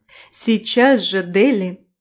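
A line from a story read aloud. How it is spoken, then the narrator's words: Stern tone. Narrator (Russian): строгим тоном ответила Анна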